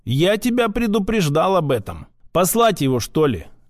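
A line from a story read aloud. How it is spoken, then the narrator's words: Snide. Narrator (Russian): ехидно добавил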